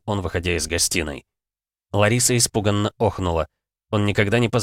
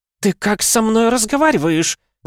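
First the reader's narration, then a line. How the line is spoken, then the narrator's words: Woman shouting. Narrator (Russian): закричала она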